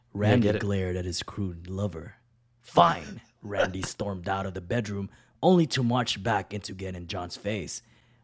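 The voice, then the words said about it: Reading in a deep voice. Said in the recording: “I'm going to read this in a deep voice.”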